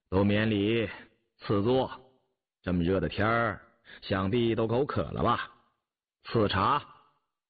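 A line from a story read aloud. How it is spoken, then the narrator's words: Calm, smiling. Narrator (Chinese): 雍正淡淡说着，含笑道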